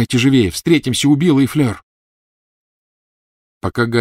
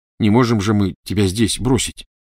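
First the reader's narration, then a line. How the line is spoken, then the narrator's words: Plain. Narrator (Russian): сказал Дин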